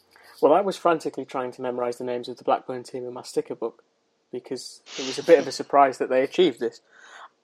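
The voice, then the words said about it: English accent. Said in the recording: “You have an English accent”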